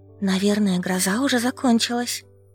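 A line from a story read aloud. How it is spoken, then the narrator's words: Whispered. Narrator (Russian): шепнула я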